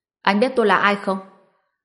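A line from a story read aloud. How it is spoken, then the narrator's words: Young man's scared shout. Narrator (Vietnamese): Thanh niên kia vừa sợ vừa kinh ngạc, quát lớn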